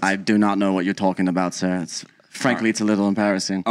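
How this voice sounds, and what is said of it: Put-on accent. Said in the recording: “How long did you practice this accent in the mirror”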